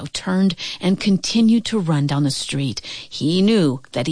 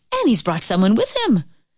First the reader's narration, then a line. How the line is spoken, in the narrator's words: the young girl cried out